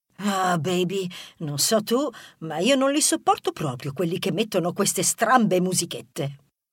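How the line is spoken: Muttered under breath. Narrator (Italian): Rebella invece bofonchiò sottovoce

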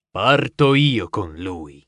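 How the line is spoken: Exclaimed. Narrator (Italian): 00K esclamò

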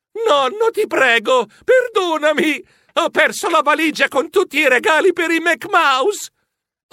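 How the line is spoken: Woman shouting. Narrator (Italian): Una voce femminile gridò

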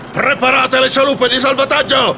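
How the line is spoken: Shouting. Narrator (Italian): gridò Nelson

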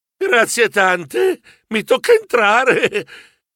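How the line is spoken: Sigh. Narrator (Italian): Sospirai

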